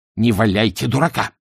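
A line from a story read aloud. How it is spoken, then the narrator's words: Angry objection. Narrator (Russian): сердито возразил первый мыслитель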